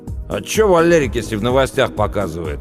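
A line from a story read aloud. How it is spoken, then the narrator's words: Snapping back. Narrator (Russian): огрызнулся Пашка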